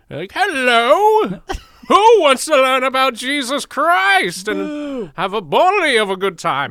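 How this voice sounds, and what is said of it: Fake Irish old-timey accent. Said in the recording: “a big fake, like, Irish ... Accent? ... I'd be like an old-timey boxer.”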